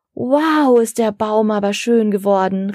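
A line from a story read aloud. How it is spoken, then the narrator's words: Girl calling out. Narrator (German): rief eine Mädchenstimme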